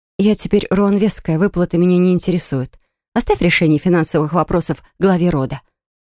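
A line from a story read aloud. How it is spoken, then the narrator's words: Dry, curt cutoff. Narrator (Russian): сухо обрубила я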